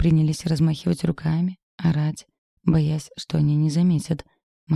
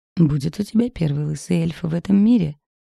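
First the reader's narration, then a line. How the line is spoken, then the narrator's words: Chuckling. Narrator (Russian): хохотнула Вася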